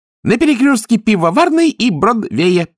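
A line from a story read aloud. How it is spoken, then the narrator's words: Squeaky demon voice. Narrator (Russian): пискнул демон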